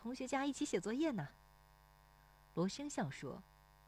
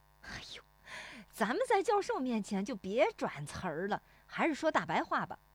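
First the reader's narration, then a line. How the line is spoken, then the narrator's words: Laughing. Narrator (Chinese): 石有福笑说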